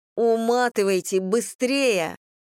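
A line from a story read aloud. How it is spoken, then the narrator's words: Exclaiming. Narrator (Russian): воскликнула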